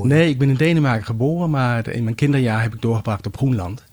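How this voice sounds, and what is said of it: Non-native Dutch accent. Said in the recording (Dutch): “je hoort misschien aan mijn accent dat ik niet autochtoon Nederlander ben”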